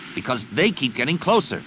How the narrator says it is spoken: Zek growled back

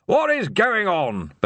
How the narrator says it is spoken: bellowed Ridcully

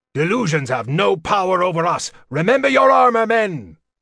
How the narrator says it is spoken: Then he shouted

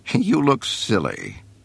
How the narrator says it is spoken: she said, laughing

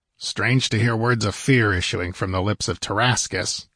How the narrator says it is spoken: rumbled the other in a harsh, deep voice

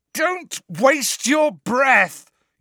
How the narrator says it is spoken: yelled Harry, his eyes screwed up against the pain in his scar, now more terrible than ever

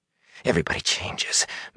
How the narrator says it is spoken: Matt rasped

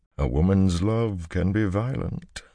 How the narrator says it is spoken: Luce Theron murmured

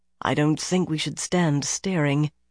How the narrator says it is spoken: Brigitta said softly

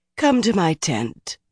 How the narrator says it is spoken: Galena said soothingly

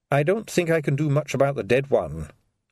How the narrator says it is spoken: said the doctor

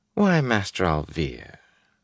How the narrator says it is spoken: Fael said sweetly

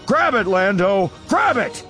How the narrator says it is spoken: he yells, stretching out blindly

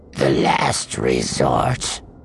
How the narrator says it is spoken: the Mustafarian said, his voice sounding muffled through the breath mask

